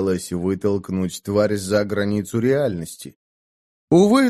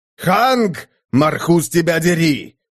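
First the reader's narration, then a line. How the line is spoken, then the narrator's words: Sudden yell. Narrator (Russian): вдруг заорал Дарк, нарушив тоскливое безмолвие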